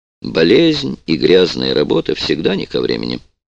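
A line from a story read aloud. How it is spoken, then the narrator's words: Dry. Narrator (Russian): сухо ответил Юдин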